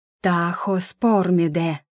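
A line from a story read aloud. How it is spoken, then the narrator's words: Drawn out on exhale. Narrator (Russian): протянула я на выдохе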